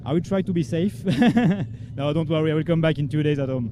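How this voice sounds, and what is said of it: French accent. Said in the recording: “it's lovely to hear that French accent”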